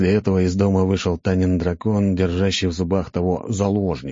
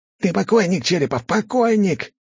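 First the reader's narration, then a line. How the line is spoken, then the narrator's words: Shouting. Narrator (Russian): кричал этот идиот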